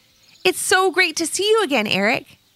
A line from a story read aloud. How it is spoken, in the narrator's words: exclaimed Levi